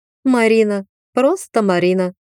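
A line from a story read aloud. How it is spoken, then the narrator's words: Snorting from darkness. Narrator (Russian): фыркнула русалка из темноты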